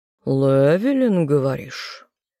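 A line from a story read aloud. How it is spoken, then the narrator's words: Amused snort, smiling. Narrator (Russian): хмыкнул лорд, улыбаясь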